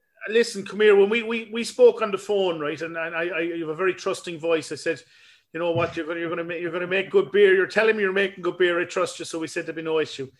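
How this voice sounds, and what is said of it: Slight Limerick Irish accent. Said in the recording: “It's kind of a Limerick accent there. ... There's a little bit coming through.”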